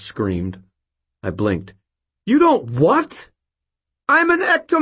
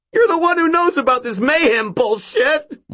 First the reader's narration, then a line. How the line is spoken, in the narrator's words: Mort shrieked